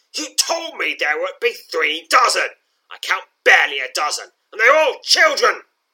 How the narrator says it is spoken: The goblin leader grumbles

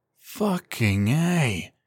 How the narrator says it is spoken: he said with a sigh of relief

